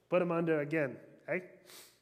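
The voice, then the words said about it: Bad mafia boss impression. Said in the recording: “bad mafia boss impression”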